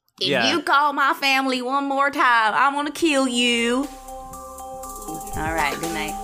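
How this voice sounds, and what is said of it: Imitates another person's voice. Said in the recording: “can you give us one last accent, of what you think Beth sounds like?”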